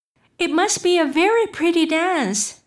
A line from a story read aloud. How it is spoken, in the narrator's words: said Alice timidly